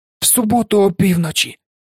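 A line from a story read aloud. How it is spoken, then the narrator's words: Hoarse exclamation. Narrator (Ukrainian): хрипко вигукнув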